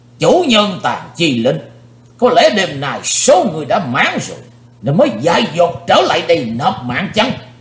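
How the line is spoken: Old man's sudden roar. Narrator (Vietnamese): Lão nhân gầy ốm bỗng gầm to lên

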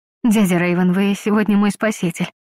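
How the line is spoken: Breathless admiration. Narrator (Russian): выдохнула с восхищением

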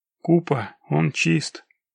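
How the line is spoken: Quiet. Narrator (Russian): тихо проговорил Локис

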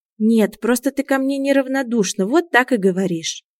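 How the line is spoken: Sighing. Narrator (Russian): вздохнул Илья

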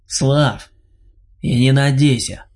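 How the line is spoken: Scoffing. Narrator (Russian): хмыкнул убивец

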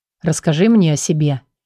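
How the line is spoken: Quiet request. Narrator (Russian): негромко попросил Андрей

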